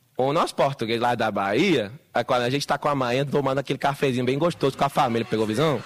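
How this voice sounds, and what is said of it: Portuguese with a put-on Bahian accent. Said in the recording (Spanish): “diferentes tonadas, dependiendo del lugar de Brasil que sea ... el bahiano, el de Bahía”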